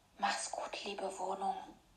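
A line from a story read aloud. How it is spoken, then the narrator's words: Quiet whisper. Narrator (German): Leise flüsterte sie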